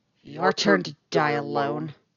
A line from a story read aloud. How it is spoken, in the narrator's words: she snarls